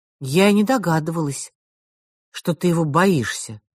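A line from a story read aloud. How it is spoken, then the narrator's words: Plain. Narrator (Russian): сказала Джинни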